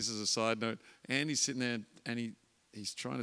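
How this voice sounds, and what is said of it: Usual voice. Nothing is said of it.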